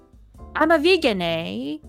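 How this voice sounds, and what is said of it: English accent with SoCal drawl. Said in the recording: “she basically sounds like a California, like a Southern SoCal girl ... with an English accent ... she doesn't know how to close her mouth. Like at the end of a sentence, like her mouth is just ... there's a lot of A's too”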